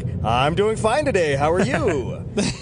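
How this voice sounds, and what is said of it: Professional event announcer voice. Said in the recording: “I get stuck in announcer voice ... He falls headlong into pro announcer”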